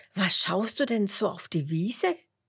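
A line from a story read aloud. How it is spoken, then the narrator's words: Laughing. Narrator (German): lacht Huberto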